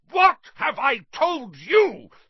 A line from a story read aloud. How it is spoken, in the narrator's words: thundered his uncle, spraying spit